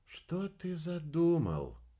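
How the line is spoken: Whisper. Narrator (Russian): прошептала рыжая

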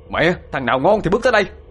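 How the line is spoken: Roaring. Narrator (Vietnamese): Thiên gầm lên

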